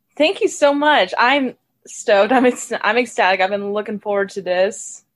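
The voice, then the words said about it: Slight accent. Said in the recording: “I'm enjoying your accent already. I can hear like a little tinge of it.”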